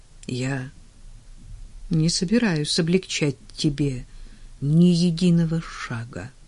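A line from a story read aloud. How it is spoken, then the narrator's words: Calm announcement. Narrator (Russian): спокойно объявил он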